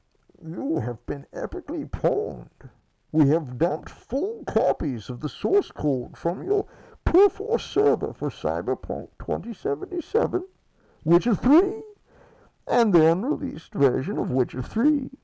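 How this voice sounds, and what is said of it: Bane movie villain voice. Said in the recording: “could do the hacker voice. Maybe I'll just do the Bane. I'll do the Bane voice.”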